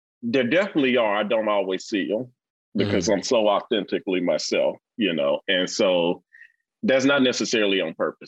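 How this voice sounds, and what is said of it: Rich Mississippi accent. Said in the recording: “I have this rich, I'll describe Mississippi accent ... you sound like you're still from”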